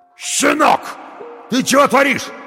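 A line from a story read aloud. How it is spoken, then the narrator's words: Yelling from behind. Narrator (Russian): заорал кто-то за спиной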